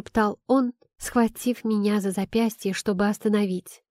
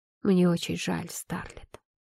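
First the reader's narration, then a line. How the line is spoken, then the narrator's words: Quiet. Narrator (Russian): тихо сказал он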